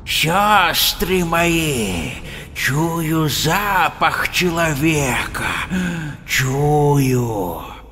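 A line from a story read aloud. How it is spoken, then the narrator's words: Hissing. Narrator (Russian): Зашипела одна из ведьм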